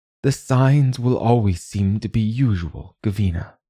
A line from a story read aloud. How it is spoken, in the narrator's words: Aileen had said